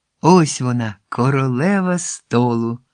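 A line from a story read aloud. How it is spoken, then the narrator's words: Laughing. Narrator (Ukrainian): засміявся до гостей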